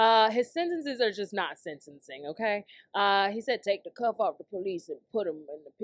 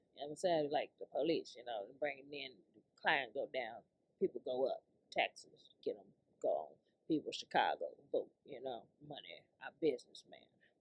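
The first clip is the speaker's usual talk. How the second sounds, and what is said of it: Mumbling, fragmented imitation of another person. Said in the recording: “He talks a little bit like Shaq, like he never finishes his sentence and he's mumbling and all of that, and you really don't know what he's saying ... it's like a country Republican elderly Shaq ... my best Willie Wilson impersonation”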